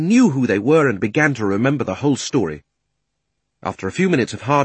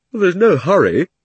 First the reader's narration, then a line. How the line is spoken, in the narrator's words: said Diggory with a huge yawn